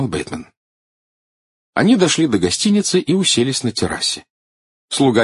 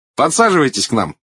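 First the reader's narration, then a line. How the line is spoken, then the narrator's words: Cheerful invitation. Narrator (Russian): весело пригласил Эдвард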